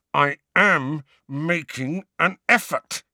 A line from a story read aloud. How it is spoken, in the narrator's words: he said through clenched teeth